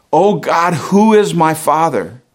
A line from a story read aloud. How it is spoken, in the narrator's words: In her agony cried out